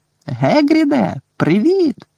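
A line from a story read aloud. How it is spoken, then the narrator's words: Shout. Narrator (Ukrainian): закричав Гаррі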